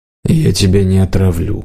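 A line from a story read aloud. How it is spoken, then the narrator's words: Mumbled. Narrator (Russian): пробормотал Лириал Рун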